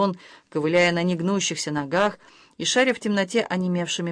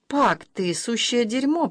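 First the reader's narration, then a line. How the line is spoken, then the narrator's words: Mutter. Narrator (Russian): пробормотала Айрис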